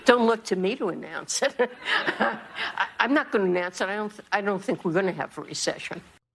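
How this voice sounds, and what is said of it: Female voice, New York accent. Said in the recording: “let's listen to her accent ... that's not a bad accent. People dog on New York accents hard. I like them.”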